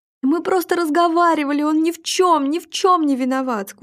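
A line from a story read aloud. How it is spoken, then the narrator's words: Sobbing, pleading excuse. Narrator (Russian): Сквозь рыдание оправдывалась Вера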